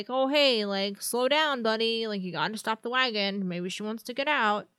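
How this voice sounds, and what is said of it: Generic dad voice. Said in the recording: “Is that your generic dad voice?”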